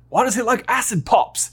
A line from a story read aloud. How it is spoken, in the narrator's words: Ron exclaims